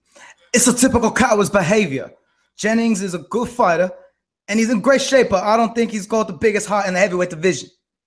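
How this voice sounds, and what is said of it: English accent impression of Dylan White. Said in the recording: “I've been practicing my Dylan White voice. You ready for the English accent? ... that Dylan White impression”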